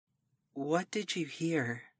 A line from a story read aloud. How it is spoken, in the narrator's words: Amy whispered to me